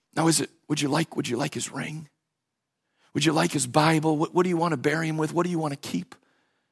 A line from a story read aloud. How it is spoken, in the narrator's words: quietly whispers